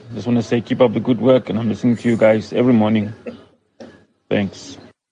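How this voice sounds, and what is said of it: Accent from Pretoria, South Africa. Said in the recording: “You can probably hear by my Moy accent, and I'm from Pretoria”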